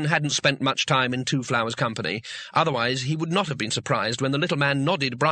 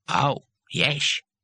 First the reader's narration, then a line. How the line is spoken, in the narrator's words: said Cohen sarcastically